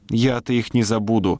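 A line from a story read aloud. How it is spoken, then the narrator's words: Plain. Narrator (Russian): сказала миссис Причард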